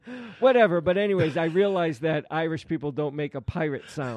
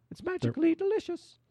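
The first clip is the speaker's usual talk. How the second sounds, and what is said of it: Irish accent imitating Lucky Charms leprechaun. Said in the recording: “he has an Irish accent ... Like Lucky from Lucky Charms. ... Yeah, that's kind of it.”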